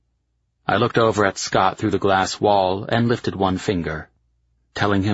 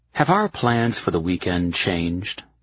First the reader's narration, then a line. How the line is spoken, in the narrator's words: I asked